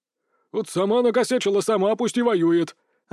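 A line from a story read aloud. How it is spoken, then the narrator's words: Boyar yelling. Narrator (Russian): орал боярин Голицын Андрей Иванович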